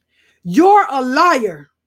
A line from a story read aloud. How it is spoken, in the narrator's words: he yelled